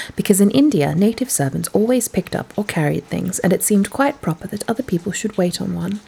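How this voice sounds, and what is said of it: Usual voice. Nothing is said of it.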